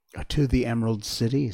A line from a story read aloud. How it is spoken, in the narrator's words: said Dorothy